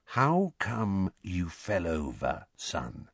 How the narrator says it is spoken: said Uncle Vernon, in an unnaturally quiet voice, the kind of voice he might adopt at the bedside of a very ill person

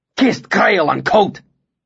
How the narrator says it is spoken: he swore furiously

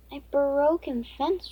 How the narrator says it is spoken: Raina exclaimed

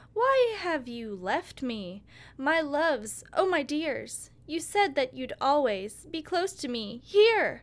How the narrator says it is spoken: exclaim

